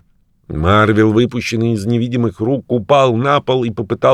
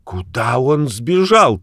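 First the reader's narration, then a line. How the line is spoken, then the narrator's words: Shouting. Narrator (Russian): крикнул Чернобородый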